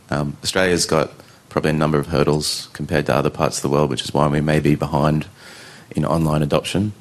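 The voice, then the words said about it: Australian accent. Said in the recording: “I'm sorry, I'm speaking Australian.”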